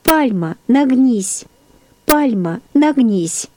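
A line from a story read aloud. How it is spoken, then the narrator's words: Tender childlike voice. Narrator (Russian): сказал нежным детским голосом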